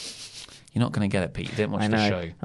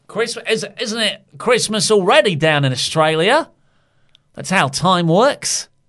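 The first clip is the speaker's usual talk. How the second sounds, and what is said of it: Put-on Australian accent. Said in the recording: “That's almost an Australian accent... I'm pretty sure it's a total Australian accent”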